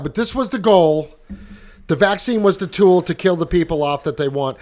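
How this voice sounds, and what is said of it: Boston accent. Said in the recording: “your accent's really cool ... it's just called the Wicked Smat accent.”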